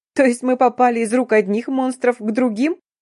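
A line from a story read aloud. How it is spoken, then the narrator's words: Breathless hysterical laughter. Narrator (Russian): выдохнула, истерически расхохотавшись, подытожила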